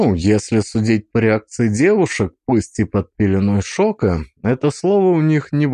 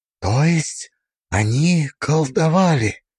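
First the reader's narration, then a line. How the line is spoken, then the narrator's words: Whisper. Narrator (Russian): прошептала Алиса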